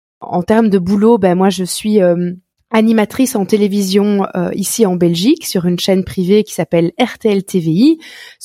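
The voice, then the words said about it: Strong Belgian French accent. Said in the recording (French): “J'habite euh, en Belgique, mais ça, je, pense que vous allez très très vite le remarquer avec mon accent, qui est très prononcé.”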